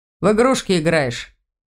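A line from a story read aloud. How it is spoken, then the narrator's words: Snort. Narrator (Russian): Лиля фыркнула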